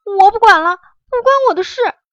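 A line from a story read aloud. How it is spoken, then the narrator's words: Disgusted hasty cry. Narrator (Chinese): 月牙都快吐了，忙叫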